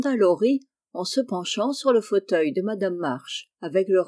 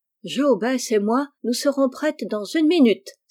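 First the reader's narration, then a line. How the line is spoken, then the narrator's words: Exclaiming. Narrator (French): s'écria Amy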